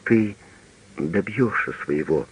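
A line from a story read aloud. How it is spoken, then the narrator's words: Quiet. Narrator (Russian): тихо сказала она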